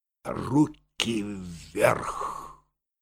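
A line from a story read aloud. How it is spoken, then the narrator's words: Quiet but resolute. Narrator (Russian): тихо, но решительно сказал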